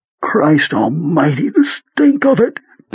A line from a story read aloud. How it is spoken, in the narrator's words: Beaver cried